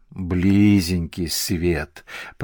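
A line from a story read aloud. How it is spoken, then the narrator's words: Grumbling. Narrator (Russian): проворчала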